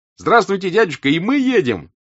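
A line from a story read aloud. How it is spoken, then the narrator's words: Shouting. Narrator (Russian): прокричал Петя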